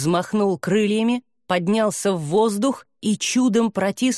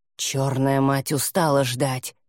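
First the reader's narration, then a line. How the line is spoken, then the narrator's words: Growl. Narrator (Russian): прорычал Гамиэль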